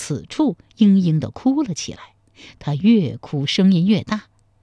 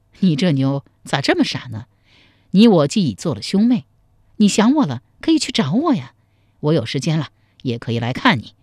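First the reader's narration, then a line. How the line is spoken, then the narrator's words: Laughing reply. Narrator (Chinese): 赵匡胤笑着回答说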